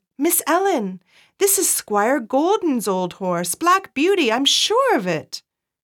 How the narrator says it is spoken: In an excited tone of voice, Joe said to her

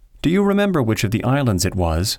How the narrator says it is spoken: asked George

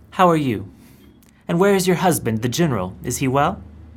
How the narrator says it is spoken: says the king warmly

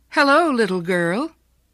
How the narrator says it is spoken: a young man called out cheerfully

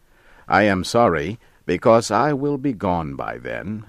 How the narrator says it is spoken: I said

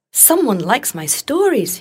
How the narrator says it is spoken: he cried

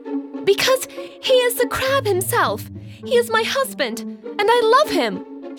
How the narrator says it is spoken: cried

